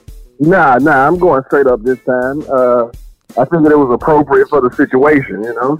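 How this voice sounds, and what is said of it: Rough, worn-out sounding voice. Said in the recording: “You sound terrible,”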